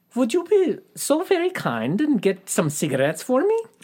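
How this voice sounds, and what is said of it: Poor put-on German accent. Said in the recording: “That was a terrible German accent.”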